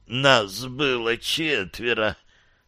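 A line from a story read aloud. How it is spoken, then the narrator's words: Hoarse croak. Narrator (Russian): прохрипела Джейн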